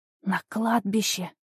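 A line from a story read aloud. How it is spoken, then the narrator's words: Strained loud whisper. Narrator (Russian): громким шепотом выдавила из себя моя подруга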